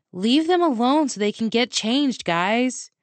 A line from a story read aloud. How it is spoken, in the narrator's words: I shouted playfully